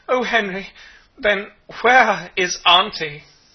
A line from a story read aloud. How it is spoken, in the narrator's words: The maiden was the first to recover from her surprise, said wildly